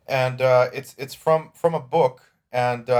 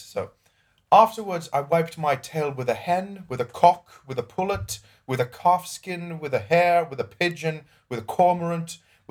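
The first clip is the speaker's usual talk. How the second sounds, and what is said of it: Put-on British accent. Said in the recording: “I'll adopt the British accent for this because it just fits.”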